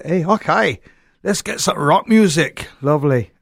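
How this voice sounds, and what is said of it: Poorly done put-on accent. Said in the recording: “Sorry about the accent. I'm not very good at them”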